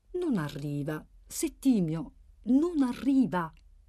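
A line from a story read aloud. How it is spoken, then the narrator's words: Calm voice. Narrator (Italian): Samuele, che disse con voce calma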